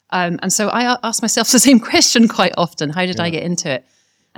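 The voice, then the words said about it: Scottish accent. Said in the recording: “as you can hear from my accent, probably just I'm a Scot”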